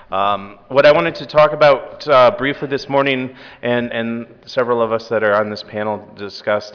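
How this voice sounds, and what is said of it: Voice affected by a cold. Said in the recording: “I'm really kind of battling with a bit of a cold that I'm trying to get over ... if halfway through this I lose my voice”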